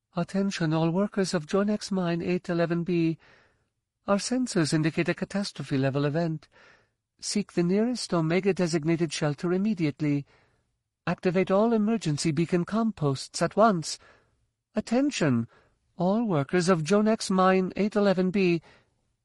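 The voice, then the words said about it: Light, lilting unfamiliar accent. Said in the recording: “its voice speaking basic, with a light, lilting accent Jaina had never heard before”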